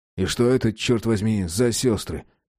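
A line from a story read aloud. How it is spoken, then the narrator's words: Sad, sighing question. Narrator (Russian): Печально вздохнув, осведомился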